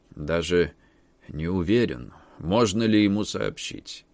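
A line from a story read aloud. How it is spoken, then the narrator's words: Creaky voice. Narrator (Russian): проскрипел адвокат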